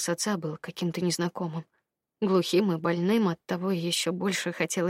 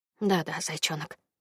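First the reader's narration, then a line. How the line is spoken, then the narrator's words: Quiet, gentle. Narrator (Russian): негромко говорил папа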